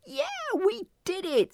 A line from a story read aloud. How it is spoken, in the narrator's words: Sunflower screeched